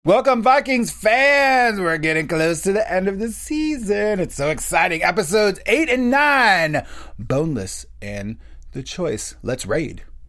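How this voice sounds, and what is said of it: Cheery, cheerleader-like upbeat tone. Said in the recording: “that tone of voice ... It's like a video game ... like we're cheering”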